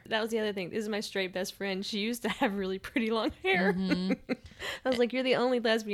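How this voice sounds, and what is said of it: Usual voice. Nothing is said of it.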